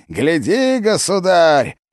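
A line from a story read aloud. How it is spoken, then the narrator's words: Ecstatic yell. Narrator (Russian): восторженно завопил Васян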